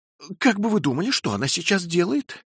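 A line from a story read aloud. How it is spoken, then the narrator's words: Exclaiming. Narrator (Russian): воскликнула мисс Моулам, вбежав в кухню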